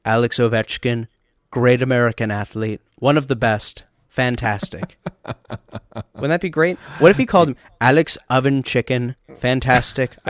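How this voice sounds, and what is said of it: Donald Trump impression. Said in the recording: “You needed to sneak in a Donald Trump impersonation.”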